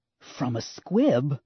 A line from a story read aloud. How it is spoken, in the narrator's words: Leia hissed